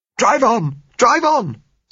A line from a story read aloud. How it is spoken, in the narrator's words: said Josella hysterically